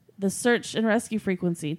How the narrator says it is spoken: Taylor replied

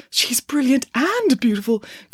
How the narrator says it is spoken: murmurs of

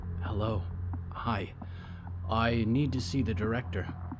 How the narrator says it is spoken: Olivier drew close to the librarian's desk and whispered

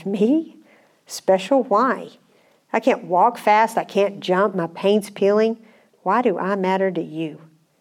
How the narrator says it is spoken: Eli spoke very softly

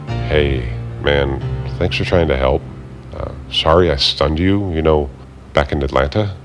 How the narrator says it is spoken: whispered

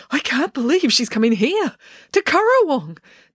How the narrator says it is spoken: Dad gushed excitedly

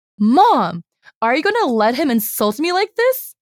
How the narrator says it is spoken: he shouts

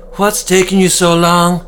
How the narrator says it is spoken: Deirdre shouted at her young workers

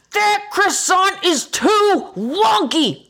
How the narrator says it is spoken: shout

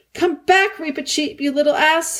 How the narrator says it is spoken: shouted Peter

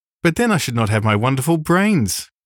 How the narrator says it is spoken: cried the Scarecrow

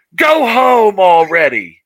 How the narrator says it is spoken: somebody yelled out, some woman yelled out

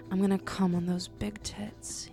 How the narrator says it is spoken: groaned

